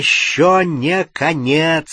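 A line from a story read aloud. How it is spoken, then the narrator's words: Loud shout. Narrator (Russian): сказал Гарри и громко крикнул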